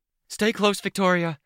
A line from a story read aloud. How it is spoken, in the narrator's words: Sveta called out